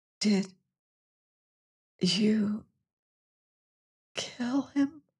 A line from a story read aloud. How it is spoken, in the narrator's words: she whispered